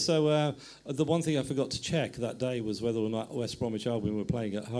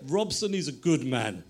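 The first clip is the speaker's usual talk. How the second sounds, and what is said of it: Imitated Greek accent. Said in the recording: “In his kind of Greek accent.”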